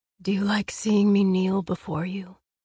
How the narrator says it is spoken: asked, the words rumbling

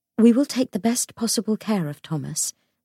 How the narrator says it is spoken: said Cecily

